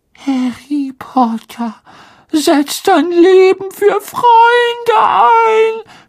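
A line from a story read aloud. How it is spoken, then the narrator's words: Groaning with wistful enthusiasm. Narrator (German): stöhnte Dobby in einer Art wehmütiger Begeisterung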